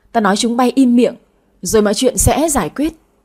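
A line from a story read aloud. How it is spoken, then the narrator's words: Louder shout. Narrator (Vietnamese): Bà nội quát lớn hơn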